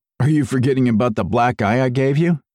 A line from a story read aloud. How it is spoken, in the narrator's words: I chuckled